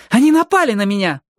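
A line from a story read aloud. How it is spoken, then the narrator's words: Exclaiming. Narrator (Russian): воскликнула Алли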